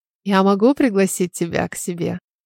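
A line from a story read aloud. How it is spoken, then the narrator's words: Quiet question. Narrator (Russian): Тихо спросил Алан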